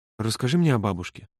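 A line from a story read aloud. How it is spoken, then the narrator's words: Quiet request. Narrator (Russian): тихо попросил Володя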